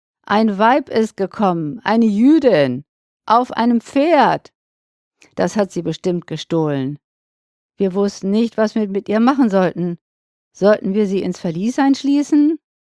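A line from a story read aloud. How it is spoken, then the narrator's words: Calling out. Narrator (German): rief er ihm entgegen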